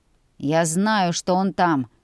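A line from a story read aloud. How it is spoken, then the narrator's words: Grumbling. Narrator (Russian): проворчал Оуэн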